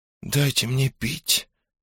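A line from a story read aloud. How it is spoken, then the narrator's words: Faint whisper. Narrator (Russian): едва слышно прошептала Элли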